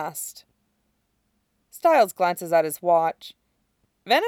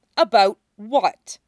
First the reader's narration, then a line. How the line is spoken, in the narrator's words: Cora snaps